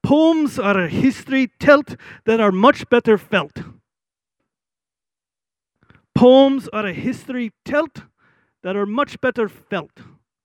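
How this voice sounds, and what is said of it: Scottish accent imitating Alistair Begg. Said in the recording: “He's a Scottish guy ... in his Scottish accent”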